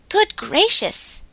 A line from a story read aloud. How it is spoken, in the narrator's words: exclaimed Glossy